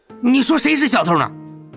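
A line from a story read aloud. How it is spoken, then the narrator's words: Angrier. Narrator (Chinese): 这棒球帽更加怒道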